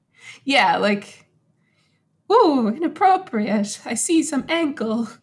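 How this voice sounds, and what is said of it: Bad fake Irish accent. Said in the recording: “bad Irish accent ... fake Irish”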